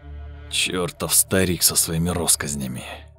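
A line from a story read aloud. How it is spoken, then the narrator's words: Through gritted teeth. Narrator (Russian): процедил Лунёв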